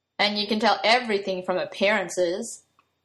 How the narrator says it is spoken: Merlin said sarcastically

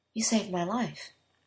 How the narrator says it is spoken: he said softly

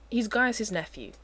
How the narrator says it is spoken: Uther says firmly

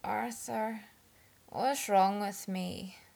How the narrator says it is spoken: Merlin slurred quietly

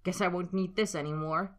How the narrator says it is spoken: he'd spat, fingers trembling

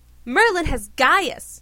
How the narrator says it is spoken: Arthur shouted

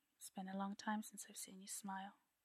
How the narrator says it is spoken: Arthur murmurs

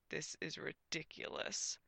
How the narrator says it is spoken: muttered Gwen

